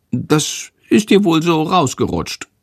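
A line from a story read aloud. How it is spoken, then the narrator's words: Giggling. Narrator (German): Schandor kichert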